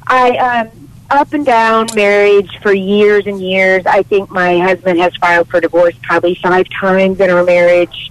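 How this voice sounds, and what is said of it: Strained, fading sick voice. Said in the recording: “my voice is kind of going out. I'm battling a sickness right now.”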